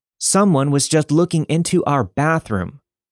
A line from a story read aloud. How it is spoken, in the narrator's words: yelling